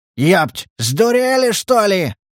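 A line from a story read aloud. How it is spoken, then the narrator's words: Yelled. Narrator (Russian): заорал Леша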